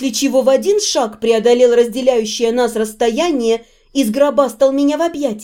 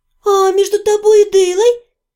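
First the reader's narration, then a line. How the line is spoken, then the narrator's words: Muffled squeak. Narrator (Russian): пискнула я, уткнувшись носом куда-то в его подмышку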